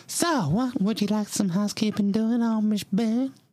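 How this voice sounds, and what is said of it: Southern lady character voice. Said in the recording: “doing an impression of a southern lady doing an impression of Amish Annabelle”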